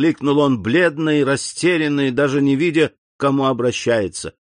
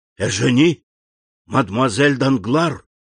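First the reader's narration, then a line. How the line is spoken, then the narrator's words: Whisper, horror to amazement. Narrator (Russian): прошептал Андреа, переходя от ужаса к изумлению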